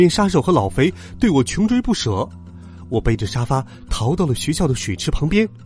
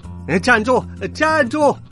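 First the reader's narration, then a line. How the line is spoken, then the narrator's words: Loud shout while chasing. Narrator (Chinese): 冷面杀手在后面一边追一边大声喊道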